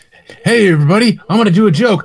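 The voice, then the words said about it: Imitates another person's voice. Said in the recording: “that's my impression of Will Ferrell”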